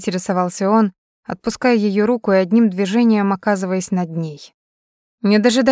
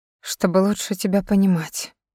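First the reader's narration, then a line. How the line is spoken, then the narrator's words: Soft murmur. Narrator (Russian): пробормотала Кэрри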